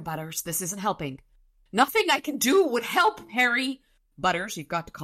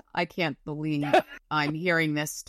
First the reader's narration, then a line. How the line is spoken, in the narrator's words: Thomas muttered